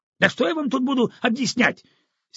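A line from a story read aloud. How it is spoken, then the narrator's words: Angry exclamation. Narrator (Russian): сердито воскликнул директор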